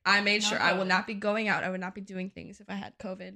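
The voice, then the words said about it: Sniffly, congested sick-sounding voice. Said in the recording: “I sound weird or if I'm sniffly throughout this ... I think it's just strep throat”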